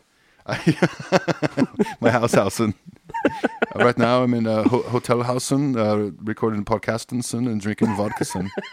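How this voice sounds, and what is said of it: Mock German accent, Danish-sounding. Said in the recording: “Your German is your Danish guy too. It's just all Torben. ... It's not a Danish accent. I'm just doing what I think is German, and it's kind of close to Torben.”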